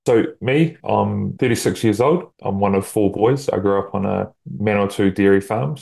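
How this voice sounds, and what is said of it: New Zealand accent. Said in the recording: “Hopefully everyone can understand my accent.”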